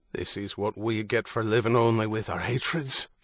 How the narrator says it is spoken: Father Michael muttered

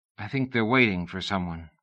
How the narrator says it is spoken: she said quietly

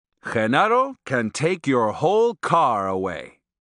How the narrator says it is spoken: Don Juan exclaimed in a booming voice

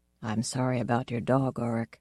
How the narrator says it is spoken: he said in his grave, quiet voice

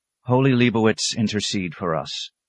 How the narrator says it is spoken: Brother Francis breathed with the others

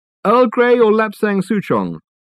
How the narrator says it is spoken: called out Reg

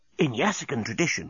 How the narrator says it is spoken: whispered Corporal Inchby Wiglet

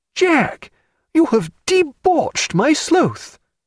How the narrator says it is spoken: Stephen cried

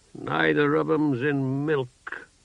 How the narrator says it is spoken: Sparrowhawk grumbled

